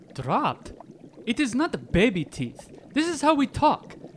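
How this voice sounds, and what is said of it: Speaks with a foreign accent. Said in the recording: “you haven't dropped that accent yet”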